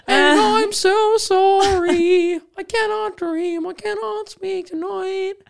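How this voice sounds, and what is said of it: Put-on accent imitating a singer. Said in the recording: “you doing the accent.”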